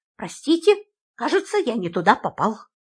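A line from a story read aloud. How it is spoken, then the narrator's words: Embarrassed mumble. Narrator (Russian): он страшно смутился и пробормотал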